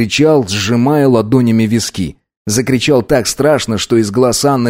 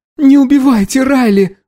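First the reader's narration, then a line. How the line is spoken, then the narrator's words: Pleading. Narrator (Russian): взмолилась Анна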